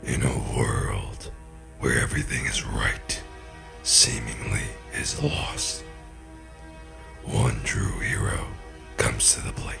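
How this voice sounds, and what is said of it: Serious movie trailer narrator voice. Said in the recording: “The whole movie trailer thing is too serious.”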